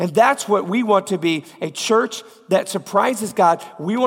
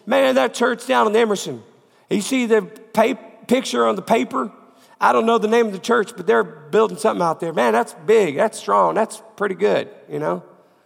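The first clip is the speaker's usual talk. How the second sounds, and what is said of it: Put-on Georgia Southern accent. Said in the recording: “That's about the best Georgia accent I can do ... with a cold.”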